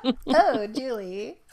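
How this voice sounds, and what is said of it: Jealous sitcom character impression. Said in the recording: “good Jealous Rachel impression”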